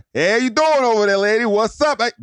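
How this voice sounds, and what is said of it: Stereotypical construction worker accent. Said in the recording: “I got to stop doing that accent for every construction worker”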